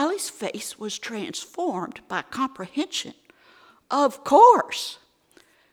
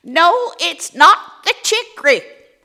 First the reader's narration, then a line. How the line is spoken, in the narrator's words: hollered Aunt Dixie down the line